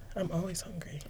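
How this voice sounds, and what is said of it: Quiet whispered voice. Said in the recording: “Can the mic hear you? You're whispering. You're doing that voice.”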